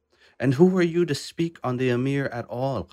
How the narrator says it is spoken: Qasim shouted

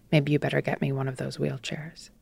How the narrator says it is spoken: He said quietly

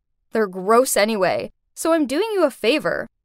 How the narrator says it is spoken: she snorted and said

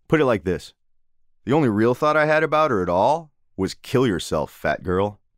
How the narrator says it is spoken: the dickhead student, who before then hadn't said a word about the story, had only sneered and shaken his head, said

